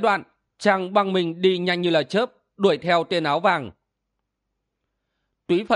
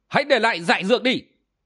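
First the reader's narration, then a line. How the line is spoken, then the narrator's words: Loud shout. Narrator (Vietnamese): Kim Ngang Tiêu quát lớn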